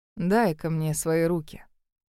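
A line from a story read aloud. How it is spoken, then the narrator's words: Gentle command. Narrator (Russian): приказал ласковым голосом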